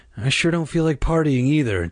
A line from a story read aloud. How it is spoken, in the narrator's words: Dad said with a sigh